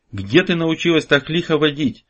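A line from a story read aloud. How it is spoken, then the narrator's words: Shouting over wind and hooves. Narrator (Russian): перекрикивая свист ветра и топот вошедших в раж животных, прокричал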